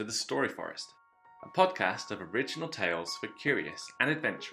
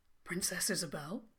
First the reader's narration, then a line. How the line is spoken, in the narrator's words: he said anxiously